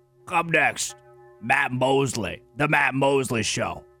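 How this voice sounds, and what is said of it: Imitates a radio announcer's voice. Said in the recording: “That's my best impression that I have of that guy.”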